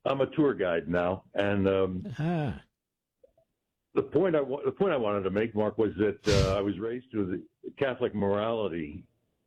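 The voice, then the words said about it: Deep polished radio-announcer voice. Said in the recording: “radio voice, America. you have a radio voice.”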